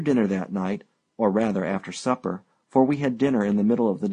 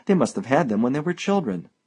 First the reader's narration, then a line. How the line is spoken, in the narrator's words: I exclaimed